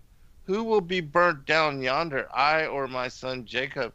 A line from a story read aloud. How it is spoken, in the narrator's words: Isaac could not but exclaim